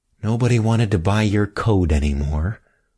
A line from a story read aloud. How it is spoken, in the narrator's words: mumbled Emmy